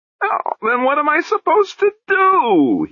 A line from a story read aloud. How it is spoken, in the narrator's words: He wailed